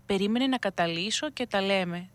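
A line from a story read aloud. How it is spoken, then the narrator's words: Smiling priest. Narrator (Greek): του είπε χαμογελαστά ο παπάς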